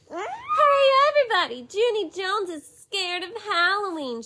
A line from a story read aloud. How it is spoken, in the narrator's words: she shouted